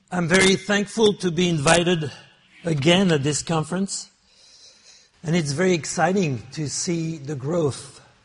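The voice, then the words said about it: American-accented English from French speaker. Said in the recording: “my beautiful American French accent”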